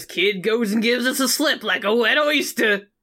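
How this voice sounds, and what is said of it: Put-on New York accent. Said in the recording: “I just gave him a New York accent”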